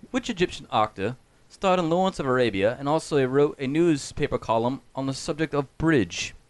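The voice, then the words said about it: Put-on British accent, Anne Robinson. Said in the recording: “you got to do it just like her. British accent. You got to do it.”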